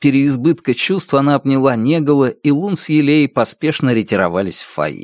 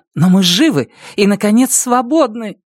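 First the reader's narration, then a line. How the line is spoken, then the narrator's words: Exclaimed. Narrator (Russian): Карсис воскликнула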